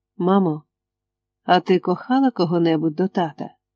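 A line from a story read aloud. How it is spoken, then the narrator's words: Very sleepy voice. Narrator (Ukrainian): Надзвичайно сонливим голосом я спитав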